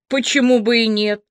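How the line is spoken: Amused snort. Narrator (Russian): хмыкнула Нелька

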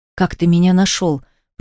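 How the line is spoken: Through gritted teeth. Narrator (Russian): процедила я

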